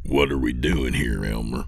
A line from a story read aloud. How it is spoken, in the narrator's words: Lewis said in a low voice